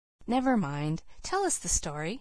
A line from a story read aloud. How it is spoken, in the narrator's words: said the preacher himself, eagerly